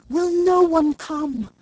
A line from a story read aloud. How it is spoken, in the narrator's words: it cried